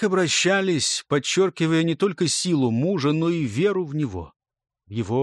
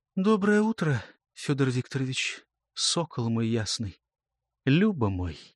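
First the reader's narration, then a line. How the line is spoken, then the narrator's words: Sleepy loving whisper. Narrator (Russian): Его любимая супружница, не открывая глаз, словно купаясь в ускользающих остатках сновидений, прошептала в ответ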